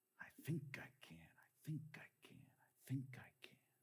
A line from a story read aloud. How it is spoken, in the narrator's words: his engine coughed as he whispered soft